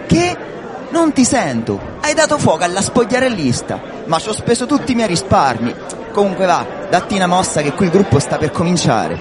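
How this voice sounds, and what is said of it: Shouting. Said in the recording (Italian): “non urlare”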